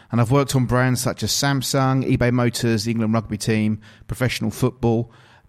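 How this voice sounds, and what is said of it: English accent. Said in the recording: “If you couldn't tell from my accent by now and the intro, I'm actually from England, from the United Kingdom”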